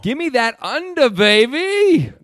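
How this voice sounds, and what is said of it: Austin Powers style accent. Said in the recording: “Don't do that accent. ... Austin Powers. ... Austin Powers, yo.”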